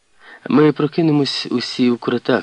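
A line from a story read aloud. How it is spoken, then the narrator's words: Speaking with muffled laugh. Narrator (Ukrainian): сказала вона і знову засміялася своїм трохи приглушеним сміхом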